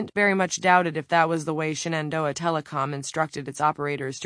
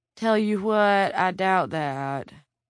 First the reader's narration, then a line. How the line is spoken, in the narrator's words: she responded in a drawl that could, and probably did, come straight from the Tulies of Bridger County